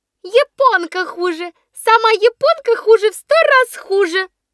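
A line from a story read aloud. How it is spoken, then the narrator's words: Squeaky. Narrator (Russian): пищала Шалуня Соболева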